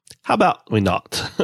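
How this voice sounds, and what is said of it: Terrible FDR impression accent. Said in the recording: “he just had a terrible accent there”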